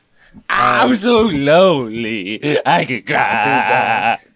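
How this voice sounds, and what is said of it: Sings, imitates another person's voice. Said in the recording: “that was a good impression.”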